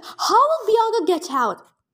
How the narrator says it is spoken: She yelled

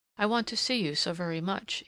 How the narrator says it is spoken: he was murmuring

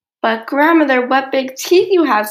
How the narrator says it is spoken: said Little Red Riding Hood, her voice quivering slightly

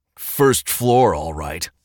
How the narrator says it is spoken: Paul snorted from up ahead

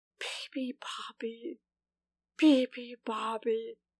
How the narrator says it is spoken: whispered the lion, who was too tired to roar

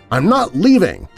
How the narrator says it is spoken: the woman shouted

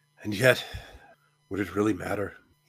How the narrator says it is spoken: he sighed

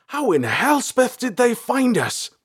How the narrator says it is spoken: Balthar exclaimed

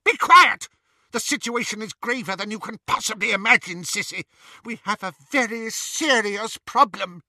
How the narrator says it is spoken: Bellatrix screamed

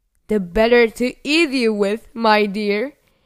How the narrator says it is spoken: roared the wolf

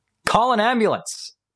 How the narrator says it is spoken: he shouted

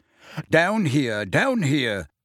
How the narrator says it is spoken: panted Mr

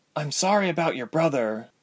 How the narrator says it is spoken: was all Ilse could murmur

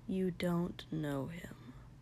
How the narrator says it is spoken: Shoto muttered quietly

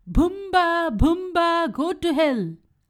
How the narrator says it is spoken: Joju shouted

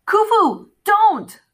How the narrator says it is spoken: Carter yelled

